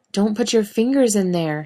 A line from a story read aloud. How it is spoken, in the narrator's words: called out